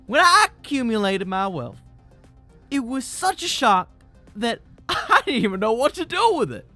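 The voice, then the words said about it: Deliberately bad put-on accent. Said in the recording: “That's a really bad accent,”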